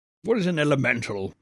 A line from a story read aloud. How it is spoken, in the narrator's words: resumed the Colonel irritably